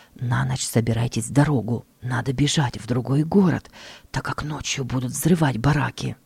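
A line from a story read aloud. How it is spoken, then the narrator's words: Quiet, friendly warning. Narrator (Russian): немецкий вахтер, который был к ним хорошо расположен, и тихонько сказал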